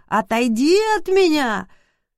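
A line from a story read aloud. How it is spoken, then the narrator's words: Sudden shrill squeal. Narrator (Russian): красавец-тренер вдруг завизжал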